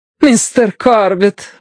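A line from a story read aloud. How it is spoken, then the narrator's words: Exclamation. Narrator (Russian): воскликнула она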